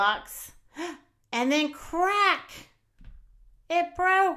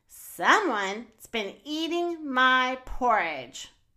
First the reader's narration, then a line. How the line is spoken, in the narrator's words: growled Daddy Bear